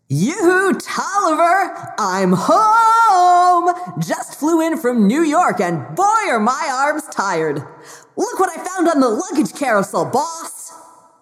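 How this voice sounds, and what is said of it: Silly Deadpool voice. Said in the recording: “we still do get that silly voice”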